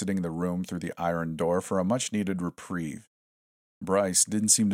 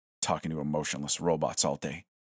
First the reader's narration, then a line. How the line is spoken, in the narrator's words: he muttered